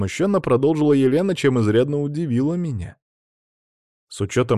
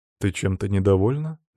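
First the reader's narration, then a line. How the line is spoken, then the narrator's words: Gentle smiling question. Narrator (Russian): мягко улыбаясь, спросил я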